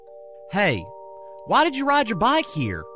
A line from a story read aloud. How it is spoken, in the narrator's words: Champ asked